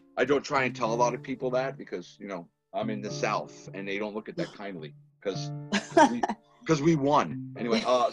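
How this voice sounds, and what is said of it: Boston accent. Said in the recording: “They kind of figure it out from the accent ... I'm from Boston”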